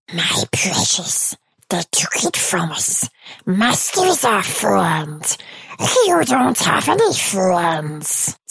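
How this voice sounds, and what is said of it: Gollum character voice impression. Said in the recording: “I can do a mean impression of Gollum from Lord of the Rings”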